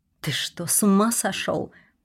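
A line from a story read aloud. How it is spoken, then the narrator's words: Muttering. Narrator (Russian): пробормотала я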